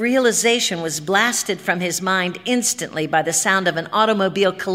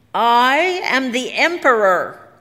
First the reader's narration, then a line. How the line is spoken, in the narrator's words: cried Harrison